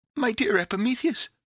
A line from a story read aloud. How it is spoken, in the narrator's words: cried Pandora